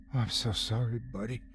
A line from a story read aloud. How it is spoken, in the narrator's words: said quietly, trying to ease his fear